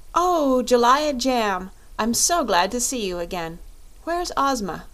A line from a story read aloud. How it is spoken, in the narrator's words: Dorothy with evident pleasure and exclaimed